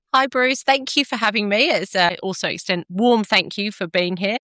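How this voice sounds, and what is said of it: British accent, somewhat Australianized. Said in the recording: “have a little accent here, although has become quite Australianized over the last few years, but originally British”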